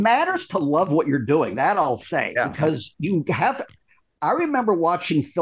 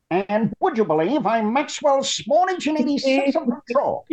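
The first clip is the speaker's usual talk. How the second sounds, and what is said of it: Maxwell Smart impression. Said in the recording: “My first good impression was Maxwell Smart.”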